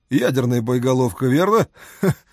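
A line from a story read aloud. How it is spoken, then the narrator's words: Short laugh. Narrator (Russian): Король коротко рассмеялся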